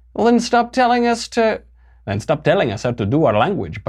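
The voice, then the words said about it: Weak put-on Latin American accent. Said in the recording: “I was trying. That's not a great Latin accent, Latinx accent.”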